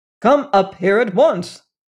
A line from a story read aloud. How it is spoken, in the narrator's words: Stalling, more sternly still